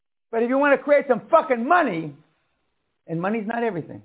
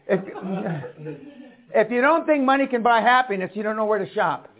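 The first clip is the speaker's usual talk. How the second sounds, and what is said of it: Put-on Irish accent. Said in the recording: “Say that with an Irish accent.”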